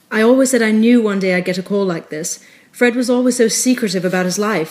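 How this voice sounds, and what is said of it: Put-on British accent. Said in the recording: “She's British. I'm not just making a British accent for no reason. She is British.”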